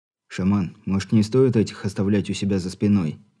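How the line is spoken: Quiet. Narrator (Russian): тихо произнес Волк

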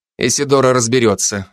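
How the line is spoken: Calm. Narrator (Russian): ответил я спокойно

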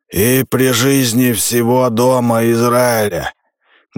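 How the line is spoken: Loud. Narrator (Russian): громко произнес Сол

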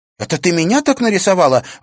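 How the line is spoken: Indignant exclamation. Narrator (Russian): воскликнула Женя Степанова, возмущенно

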